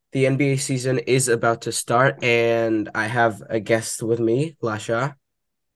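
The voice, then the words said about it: Slightly sick-sounding voice. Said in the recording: “I'm slightly sick, so excuse my voice.”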